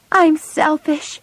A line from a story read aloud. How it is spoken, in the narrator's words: cried